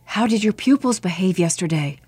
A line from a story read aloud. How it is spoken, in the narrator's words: Brother Andrew whispers to the monk next to him